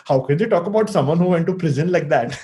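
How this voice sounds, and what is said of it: Exaggerated Indian accent. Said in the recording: “that's an Indian doing an Indian accent.”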